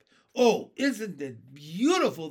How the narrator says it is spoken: they cried

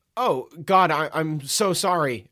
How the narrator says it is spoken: stammered

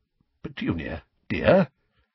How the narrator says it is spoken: said Uncle Vernon timidly

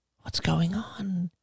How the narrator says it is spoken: she would whisper

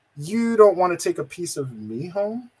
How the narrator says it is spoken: she said softly

